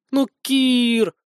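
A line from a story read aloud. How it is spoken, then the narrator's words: Hurt, plaintive drawl. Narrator (Russian): обиженно и жалобно протянула девушка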